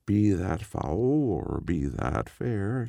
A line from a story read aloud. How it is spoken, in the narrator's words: she replied